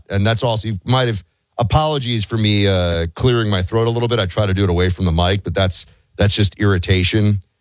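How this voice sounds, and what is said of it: Hoarse, deeper than usual voice. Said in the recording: “your voice seems to be like an octave deeper today ... It is hoarse ... my voice is a little bit shot ... The back of my throat is scratched up”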